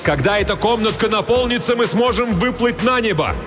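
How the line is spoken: Shouting. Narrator (Russian): Хилала закричал

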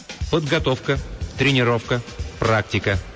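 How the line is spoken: Gloomy. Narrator (Russian): мрачно проговорила Роза

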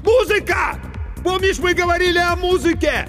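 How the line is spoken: Shouting with all might. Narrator (Russian): Иван, что было мочи, крикнул

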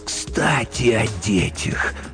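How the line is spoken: Hissed. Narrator (Russian): прошипел Верлиока

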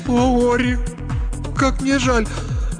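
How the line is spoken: Muffled sobbing. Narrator (Russian): уткнулась ему в шею и зарыдала вместе с ним

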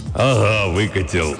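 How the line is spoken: Hoarse bass. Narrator (Russian): ответил индеец хриплым басом

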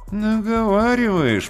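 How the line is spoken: Fat man grumbling, cheeks puffed. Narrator (Russian): проворчал толстяк, надувая щеки

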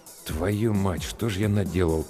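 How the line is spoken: Grumbling mutter. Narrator (Russian): буркнул Гуляев

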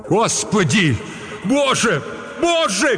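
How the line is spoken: Shouting. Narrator (Russian): крикнул Вагнер

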